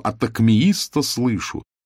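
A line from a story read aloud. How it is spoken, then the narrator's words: Offended exclamation. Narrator (Russian): с обидой воскликнул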